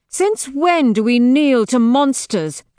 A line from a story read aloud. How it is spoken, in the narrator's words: Victra snaps